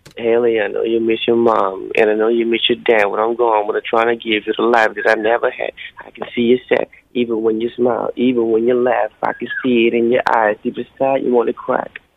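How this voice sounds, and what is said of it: Rapping in an imitated rapper's voice. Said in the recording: “That's a very good impersonation of Eminem.”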